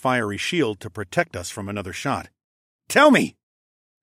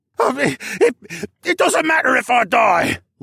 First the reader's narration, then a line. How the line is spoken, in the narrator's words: Luca shrieked